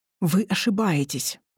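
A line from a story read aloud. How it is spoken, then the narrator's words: Hissed. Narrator (Russian): Прошипел он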